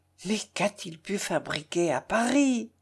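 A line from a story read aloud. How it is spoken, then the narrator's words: Low voice. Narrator (French): répétant à voix basse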